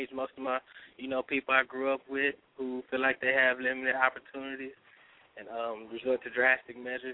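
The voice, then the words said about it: Cracky, sick-sounding voice. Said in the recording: “I'm a little sick today, so my voice is kind of cracky”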